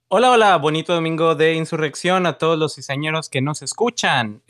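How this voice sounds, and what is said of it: Radio announcer style voice. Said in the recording (Spanish): “me salió voz de locutor... locutor o de, comentarista de béisbol”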